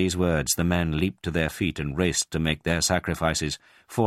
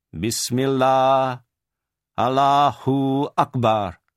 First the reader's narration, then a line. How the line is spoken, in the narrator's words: saying in a loud voice so that the men could hear